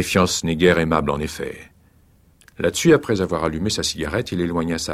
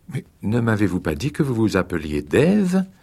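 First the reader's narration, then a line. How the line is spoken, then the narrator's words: Reproachful tone. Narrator (French): fit-elle d'un ton de reproche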